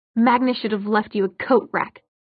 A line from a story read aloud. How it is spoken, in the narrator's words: Clary spat